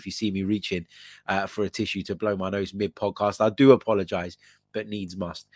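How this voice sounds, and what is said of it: Croaky voice from a cold. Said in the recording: “You might be sensing in my voice that I sound a little bit under the weather ... my voice is a little bit croaky”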